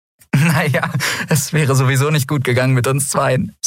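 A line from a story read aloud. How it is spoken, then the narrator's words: Laughing. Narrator (German): sagte sie lachend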